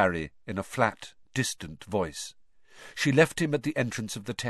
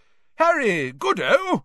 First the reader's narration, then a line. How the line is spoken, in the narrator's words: said Bagman, happily